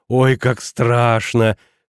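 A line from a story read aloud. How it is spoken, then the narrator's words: Hoarse neighing laugh. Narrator (Russian): хрипло заржала младшая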